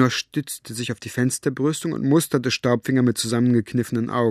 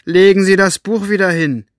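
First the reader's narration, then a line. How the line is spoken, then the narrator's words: Calling out. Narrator (German): rief zu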